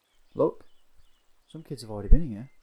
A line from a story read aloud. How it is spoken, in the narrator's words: Rosie shouts